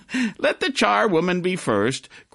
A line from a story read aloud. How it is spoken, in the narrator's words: cried she who had entered first